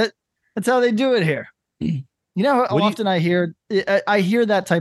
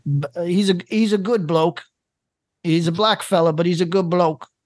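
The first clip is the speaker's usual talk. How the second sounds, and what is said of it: Attempted Australian accent. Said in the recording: “you couldn't even do an Australian accent.”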